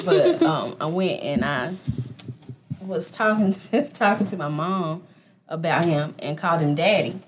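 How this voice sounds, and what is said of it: Southern US country accent. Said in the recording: “You sound country. ... I am. Real Southern. Yes. Real Southern.”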